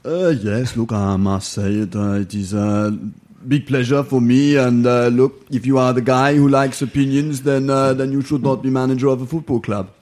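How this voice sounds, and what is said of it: Imitates another person's voice. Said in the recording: “the greatest Arsene Wenger impersonation”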